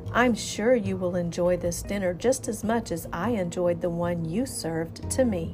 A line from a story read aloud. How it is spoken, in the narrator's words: replied the stork calmly